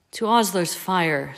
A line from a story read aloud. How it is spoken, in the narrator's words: said Remus wistfully